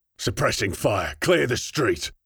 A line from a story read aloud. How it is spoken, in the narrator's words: Kronig barked orders, unfazed